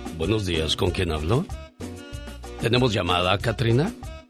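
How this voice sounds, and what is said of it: Female radio announcer voice. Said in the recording (Spanish): “voz de locutora”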